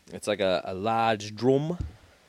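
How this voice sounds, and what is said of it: Failed put-on Australian accent. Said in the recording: “That was supposed to be like an Australian accent, but it came out wrong.”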